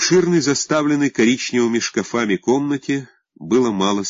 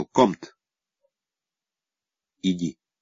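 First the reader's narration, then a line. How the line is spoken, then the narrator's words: Impassive command. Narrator (Russian): все тем же бесстрастным тоном приказал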